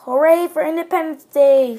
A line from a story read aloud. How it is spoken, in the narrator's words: shouted Stubby Nose